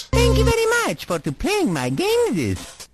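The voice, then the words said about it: Italian accent, Mario-like voice. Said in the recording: “an Italian accent ... that's Mario like ... He sounds like a Latin Mr. T.”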